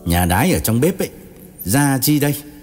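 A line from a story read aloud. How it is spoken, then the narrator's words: Mild, gentle. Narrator (Vietnamese): Gã công an không gay gắt lắm, chỉ nhẹ nhàng bảo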